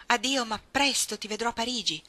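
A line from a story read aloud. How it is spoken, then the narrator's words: Loud reply, almost shouted. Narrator (Italian): rispose lui ad alta voce, tanto che gli sembrò di averlo gridato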